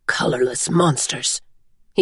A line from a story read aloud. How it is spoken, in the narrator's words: he whispered